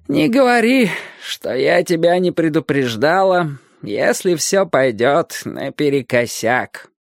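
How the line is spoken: Old woman grumbling. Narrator (Russian): проворчала старая миссис Хэмпстек

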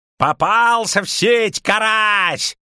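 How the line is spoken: Yelling. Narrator (Russian): орал Казаед

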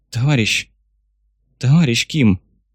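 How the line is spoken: Sharp exhale. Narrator (Russian): шпион резко выдохнул

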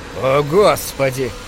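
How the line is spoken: Groaning. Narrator (Russian): простонал Джим

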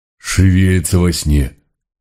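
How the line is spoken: Breathless exhale. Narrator (Russian): выдохнула Митька

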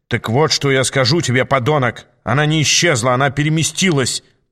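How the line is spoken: Growled, no politeness. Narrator (Russian): прорычал девол уже без всяких признаков демонстрируемой ранее вежливости

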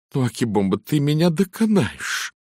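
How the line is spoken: Laughing uncontrollably. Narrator (Russian): не в силах сдержаться от хохота

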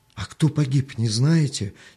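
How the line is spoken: Frightened question. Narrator (Russian): испуганно спросил Артем

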